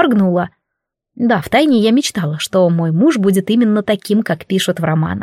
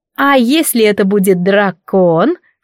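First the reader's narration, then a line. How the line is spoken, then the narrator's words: Insinuating question, female friend. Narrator (Russian): вкрадчиво поинтересовалась подруга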